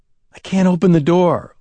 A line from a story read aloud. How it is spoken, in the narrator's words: Lewis gasped